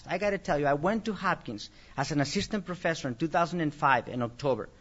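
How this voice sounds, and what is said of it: Speaks with a noticeable accent. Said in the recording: “I may have an accent”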